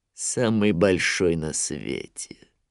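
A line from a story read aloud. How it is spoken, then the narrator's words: Grim smirk. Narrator (Russian): мрачно ухмыльнулся Шрам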